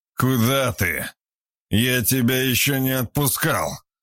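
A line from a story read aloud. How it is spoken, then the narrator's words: Very drunk voice. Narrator (Russian): Уже совсем пьяным голосом спросил Виктор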